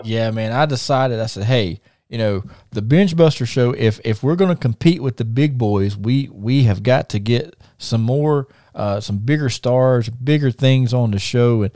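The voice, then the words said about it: Country twang accent. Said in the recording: “my country twang and my country accent”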